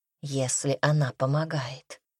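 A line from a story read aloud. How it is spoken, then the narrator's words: Quiet speech, tigress. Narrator (Russian): так же тихо произнесла тигрица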